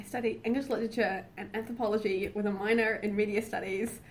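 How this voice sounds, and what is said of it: Usual voice. Nothing is said of it.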